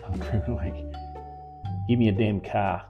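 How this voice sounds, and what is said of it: Put-on Australian accent. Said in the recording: “the great Australian phrase ... I've been working on my accent. ... Tell me how bad it is ... That's pretty good. Will you say something, I don't know, Australian”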